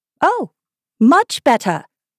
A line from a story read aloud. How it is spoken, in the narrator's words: cried the Queen, her voice rising to a squeak as she went on